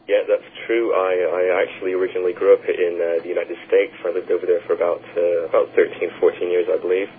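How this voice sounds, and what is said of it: American-sounding accent. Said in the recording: “he always sounded American”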